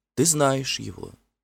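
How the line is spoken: Tender whisper. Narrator (Russian): нежно прошептала она

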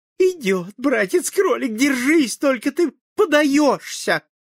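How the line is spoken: Joyful voice. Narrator (Russian): сестрица-лиса сказала радостным голосом

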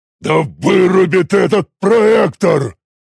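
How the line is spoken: Displeased roar. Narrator (Russian): Недовольно взревел скальный огр Титур

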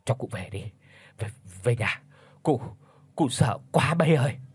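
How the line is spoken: Trembling old man's whisper. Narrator (Vietnamese): Lão Tránh run rẩy thều thào

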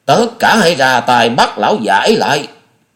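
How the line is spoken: Old man's agitated shout. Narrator (Vietnamese): Lão Lưu hơi biến sắc, chẳng hiểu do giận hay sợ, liền quát

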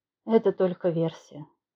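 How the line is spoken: The wind sighing. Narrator (Russian): вздохнул ветер

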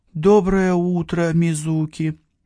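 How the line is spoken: Weary sighing greeting. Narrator (Russian): Тяжко вздохнув, поздоровался я с этой неугомонной

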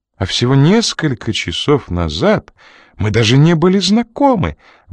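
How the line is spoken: Exclamation. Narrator (Russian): воскликнула она

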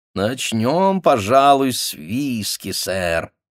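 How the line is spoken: Fat man purring. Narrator (Russian): промурлыкал толстяк

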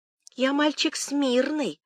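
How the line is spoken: Ingratiating, wheedling small voice. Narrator (Russian): вкрадчивым задушевным голосочком говорит он, подлизываясь к няньке

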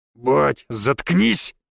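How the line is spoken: Said through gritted teeth. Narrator (Russian): процедил Фома

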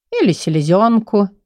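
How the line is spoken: Cheerful. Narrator (Russian): весело закончил он

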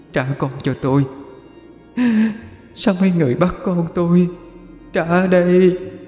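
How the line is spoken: Sobbing woman. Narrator (Vietnamese): Người đàn bà vừa khóc thút thít, vừa nói

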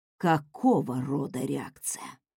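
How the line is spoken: Heavy sigh, trembling voice. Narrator (Russian): Она тяжело вздохнула, ее голос дрожал

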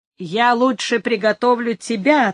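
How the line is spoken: Laughing reply. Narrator (Russian): отвечал Изидор, смеясь

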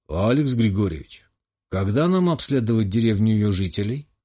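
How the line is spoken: Gloomy question. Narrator (Russian): мрачно уточнил Горов

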